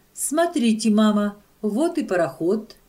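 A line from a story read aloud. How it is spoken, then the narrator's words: Joyful exclamation. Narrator (Russian): Радостным голосом воскликнула Клара Гуля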